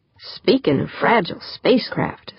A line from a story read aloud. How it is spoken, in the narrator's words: said Pancho